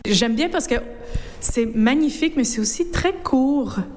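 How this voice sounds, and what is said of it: North American French accent. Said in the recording (French): “à votre accent, que vous êtes une de nos cousines outre-Atlantique.”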